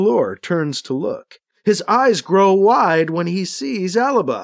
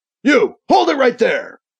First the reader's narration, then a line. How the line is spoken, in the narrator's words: he shouts at Alibi